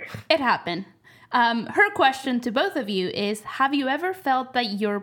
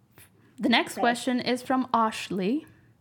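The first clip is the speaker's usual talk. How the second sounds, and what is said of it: Line said in a put-on accent. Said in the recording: “I don't know why I said it with an accent.”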